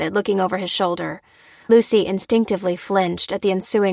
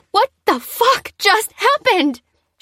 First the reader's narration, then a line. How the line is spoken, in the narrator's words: She screamed